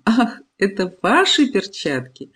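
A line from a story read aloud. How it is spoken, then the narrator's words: Laughing. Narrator (Russian): Сквозь смех она говорит мне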